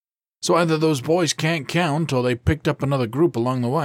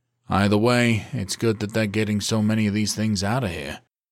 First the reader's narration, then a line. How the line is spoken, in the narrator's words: Zion said with a sigh